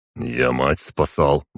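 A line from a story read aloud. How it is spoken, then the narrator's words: Proud mutter. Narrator (Russian): буркнул на это гордый Тахар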